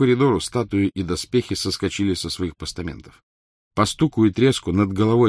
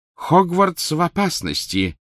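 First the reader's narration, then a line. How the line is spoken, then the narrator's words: Alarmed exclamation. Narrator (Russian): воскликнула профессор МакГонагалл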